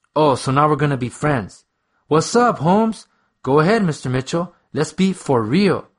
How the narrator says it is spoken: snapped, unable to stop the anger spilling from my lips

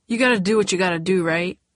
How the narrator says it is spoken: He said quickly

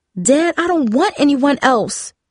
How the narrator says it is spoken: yelled, struggling to calm herself

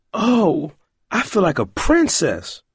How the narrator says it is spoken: Roiland grinned happily

